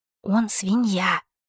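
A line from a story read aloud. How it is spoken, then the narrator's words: Accusing whisper. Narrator (Russian): прошептала обличительно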